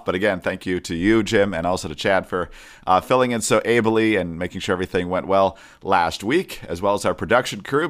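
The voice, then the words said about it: Congested voice from a cold. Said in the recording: “my voice sounds a little bit different today. Caught a small summer cold”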